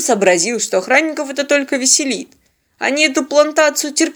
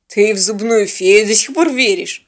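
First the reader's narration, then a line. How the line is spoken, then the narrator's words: Scoffing. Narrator (Russian): хмыкнул Бьорн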